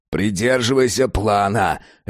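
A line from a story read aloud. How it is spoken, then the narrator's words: Barking. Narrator (Russian): рявкнул охранник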